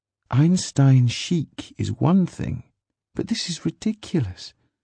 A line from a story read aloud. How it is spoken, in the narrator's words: she said softly